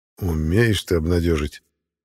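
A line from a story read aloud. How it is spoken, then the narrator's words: Grim chuckle. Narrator (Russian): мрачно усмехнулся торговец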